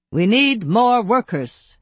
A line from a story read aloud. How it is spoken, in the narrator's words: barked, more upset than I had ever seen him